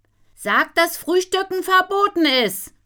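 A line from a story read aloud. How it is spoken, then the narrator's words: Calling into the house. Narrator (German): ruft sie ins Haus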